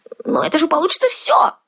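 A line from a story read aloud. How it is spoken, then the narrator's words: Indignant yell. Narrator (Russian): возмущенно завопил он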